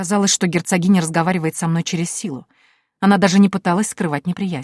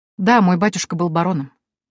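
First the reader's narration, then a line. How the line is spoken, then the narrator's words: Cold, detached. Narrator (Russian): ответила я, держась холодно и отстраненно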